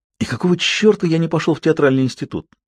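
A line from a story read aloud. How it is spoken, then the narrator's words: Self-reproachful sigh. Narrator (Russian): С запоздалым укором себе вздохнул он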